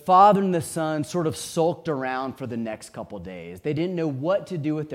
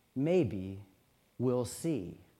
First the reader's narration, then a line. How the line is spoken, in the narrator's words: the mother, wizened, said very calmly